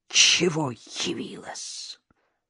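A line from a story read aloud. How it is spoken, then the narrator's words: Hissed. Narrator (Russian): прошипела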